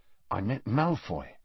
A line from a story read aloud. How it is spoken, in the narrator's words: Harry told her quietly